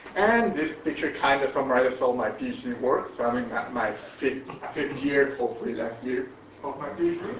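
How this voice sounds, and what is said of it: Mexican accent in English. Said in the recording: “you may notice I have an accent, so I'm originally from Mexico”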